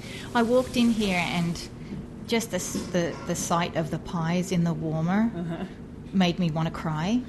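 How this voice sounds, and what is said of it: Australian accent. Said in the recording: “as you'll soon hear from her accent, Yvonne Abraham is Australian”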